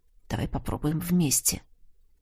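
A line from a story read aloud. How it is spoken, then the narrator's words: Quiet suggestion. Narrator (Russian): тихо предложил я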